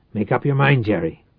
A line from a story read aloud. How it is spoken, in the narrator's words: Reich growled